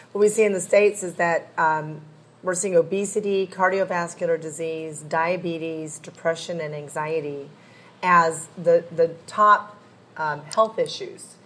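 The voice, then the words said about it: Strained, hoarse voice. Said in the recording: “excuse me, I'm losing my voice.”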